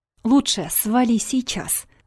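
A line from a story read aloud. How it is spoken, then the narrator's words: Through gritted teeth. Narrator (Russian): процедил Вадик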